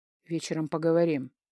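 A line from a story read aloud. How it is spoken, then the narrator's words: Husband's grumble. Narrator (Russian): буркнул муж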